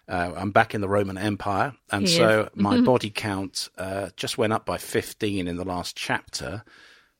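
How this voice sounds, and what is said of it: Slightly raw, hoarse voice. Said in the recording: “you might hear, I took a lozenge before I did the podcast because my voice is getting a little raw”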